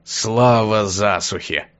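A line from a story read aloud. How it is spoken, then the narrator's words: Pleased grumble. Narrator (Russian): обрадованно проворчал Затхлик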